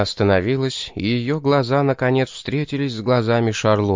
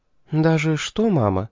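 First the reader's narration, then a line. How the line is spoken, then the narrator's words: Very gentle question. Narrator (Russian): очень мягко спросила Шарлотта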